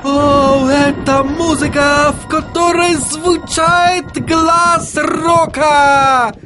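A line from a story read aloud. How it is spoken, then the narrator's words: Shout. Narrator (Russian): закричал он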